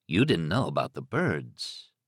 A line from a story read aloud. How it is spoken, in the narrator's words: Thad said softly